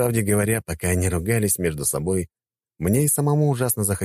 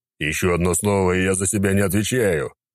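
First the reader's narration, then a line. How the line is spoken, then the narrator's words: Growl. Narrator (Russian): прорычал Федор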